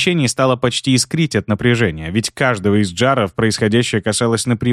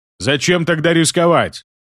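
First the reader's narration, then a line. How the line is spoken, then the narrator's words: Big warrior shouting. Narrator (Russian): выкрикнул большой воин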